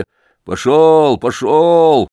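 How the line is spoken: Shouting. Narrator (Russian): кричал кузнец

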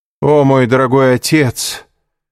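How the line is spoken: Loud, meant to be overheard. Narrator (Russian): громко сказал Андреа, так, чтобы граф мог его услышать из-за закрытой двери

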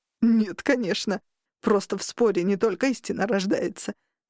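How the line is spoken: Laughing. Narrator (Russian): сквозь смех выдал

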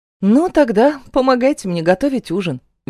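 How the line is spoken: Cheerful, smiling. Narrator (Russian): весело улыбаюсь я

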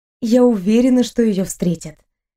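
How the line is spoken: Gentle reassurance. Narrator (Russian): мягко заверила Элиза

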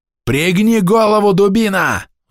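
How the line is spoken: Roaring. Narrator (Russian): взревел я на сержанта

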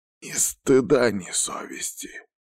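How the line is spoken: Good-natured grumble. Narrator (Russian): проворчал он с доброй улыбкой

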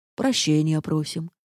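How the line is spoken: Peaceable purring. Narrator (Russian): миролюбиво замурлыкал замок

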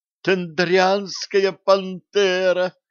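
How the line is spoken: Girl squealing with delight. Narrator (Russian): взвизгнула от восторга девушка

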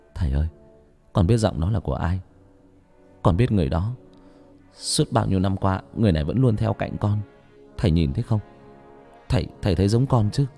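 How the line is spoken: Whispered. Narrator (Vietnamese): thì thào

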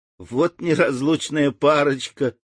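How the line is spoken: Laughing adults. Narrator (Russian): смеялись взрослые

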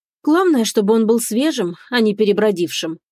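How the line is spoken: Plain. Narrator (Russian): ответила Иола

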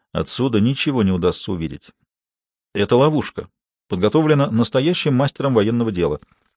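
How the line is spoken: Quiet speech. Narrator (Russian): Коронели негромко произнес

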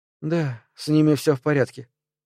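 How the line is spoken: Suddenly weary voice. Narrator (Russian): проговорила она неожиданно утомленным голосом

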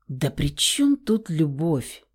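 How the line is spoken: Sudden, very quiet. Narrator (Russian): вдруг очень тихо отозвался Фауст

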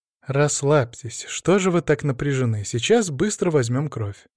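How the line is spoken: Gentle soothing nurse. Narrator (Russian): мягко сказала медсестра, явно почувствовав мое напряжение

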